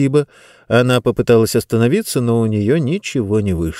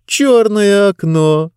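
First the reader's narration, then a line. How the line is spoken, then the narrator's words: Giggling. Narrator (Russian): Она снова хихикнула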